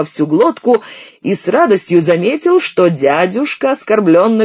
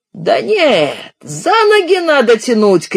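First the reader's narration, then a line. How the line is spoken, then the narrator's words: Shout. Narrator (Russian): крикнул дядюшка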